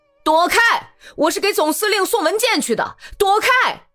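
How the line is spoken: Young tenor shouting. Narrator (Chinese): 骑兵用年轻的男高音大声喊

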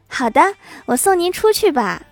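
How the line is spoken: Startled then smiling. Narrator (Chinese): 美女一愣，立马笑着说

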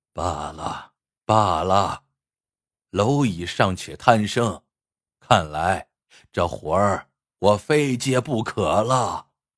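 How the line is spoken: Mournful sigh. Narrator (Chinese): 不忍心见死不救，他仰天哀叹一声，说

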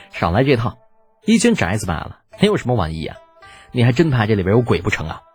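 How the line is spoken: Smiling. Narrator (Chinese): 李浩笑着

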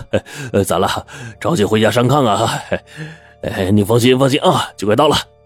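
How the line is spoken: Hearty laugh. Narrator (Chinese): 司机哈哈一笑

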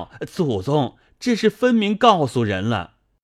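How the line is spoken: Anxious shout. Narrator (Chinese): 急得明烟在后叫

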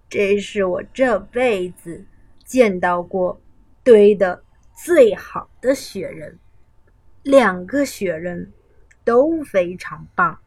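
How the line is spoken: Smiling, warm. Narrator (Chinese): 微笑着说

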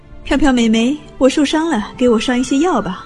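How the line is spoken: Sweaty boys shouting. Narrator (Chinese): 那些浑身冒着臭汗的男生，有时候会冲着那些文文静静的穿着白大褂的女孩喊

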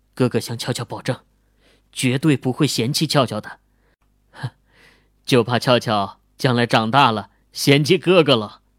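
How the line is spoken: Gentle promise. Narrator (Chinese): 温柔的向俏俏保证道

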